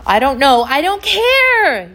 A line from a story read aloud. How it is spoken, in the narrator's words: yelled Dwayne